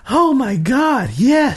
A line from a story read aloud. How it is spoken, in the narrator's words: she cried out